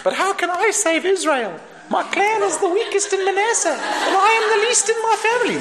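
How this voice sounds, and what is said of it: Squeaky character voice. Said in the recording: “squeaky voice”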